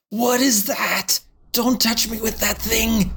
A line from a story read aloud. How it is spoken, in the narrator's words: Dick screams out